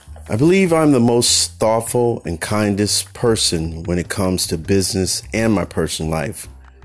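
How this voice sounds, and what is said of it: Reading-aloud voice. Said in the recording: “I'm going to read it in my reading voice.”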